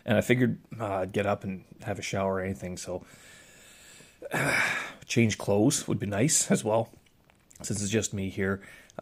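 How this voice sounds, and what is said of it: Hoarse, strained, failing voice. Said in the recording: “my voice is starting to go ... oh my goodness, my throat. Oof, that does get rough.”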